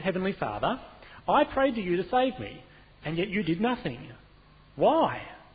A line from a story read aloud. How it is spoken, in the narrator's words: the man marched somewhat indignantly straight over to the Lord and said